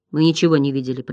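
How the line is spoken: Muttering. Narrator (Russian): пробормотал Ингивук

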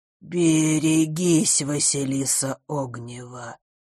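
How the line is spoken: Creaky, grating voice. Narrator (Russian): проскрипел его голос, похожий на звук, открываемый в старом доме форточки

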